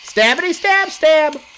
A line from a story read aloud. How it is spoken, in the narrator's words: Without thinking, the same man yelled